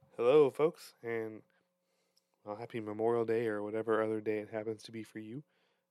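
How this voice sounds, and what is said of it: Raw, slightly hoarse throat. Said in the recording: “my voice sounds a bit different ... my throat is a little raw, so it may sound a bit different”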